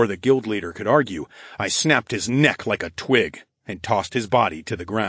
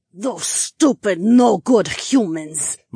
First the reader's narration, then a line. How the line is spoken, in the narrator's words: my dragon mate spat out